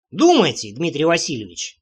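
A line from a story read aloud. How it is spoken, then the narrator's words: Muttering. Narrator (Russian): пробурчал я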